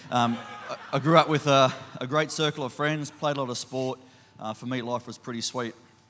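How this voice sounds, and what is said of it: Slight regional accent. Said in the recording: “born and raised in a loving family up in Toowoomba. I still have the accent a little bit.”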